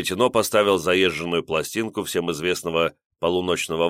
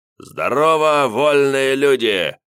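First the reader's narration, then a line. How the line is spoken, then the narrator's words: Wild bellowing. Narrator (Russian): заорал дурным голосом Лиходей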